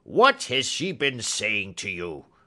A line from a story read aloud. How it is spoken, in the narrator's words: cried the old man furiously